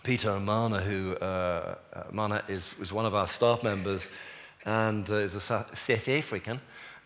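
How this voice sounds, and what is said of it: Put-on South African accent. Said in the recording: “I thought that was a pretty good South African accent myself”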